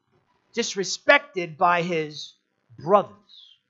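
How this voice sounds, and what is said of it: Put-on Long Island accent. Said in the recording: “That's a little bit of Long Island accent for you.”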